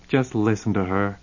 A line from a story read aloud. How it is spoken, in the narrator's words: Melissa said scornfully